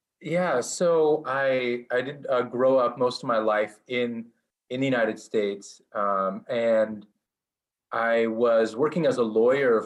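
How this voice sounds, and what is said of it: American accent. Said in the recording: “you obviously have what sounds like at least an American accent”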